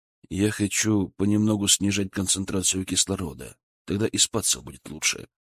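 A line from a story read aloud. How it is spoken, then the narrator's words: Whisper in ear. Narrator (Russian): шепнул на ушко жене Валера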